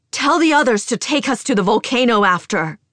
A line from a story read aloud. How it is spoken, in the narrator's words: We roar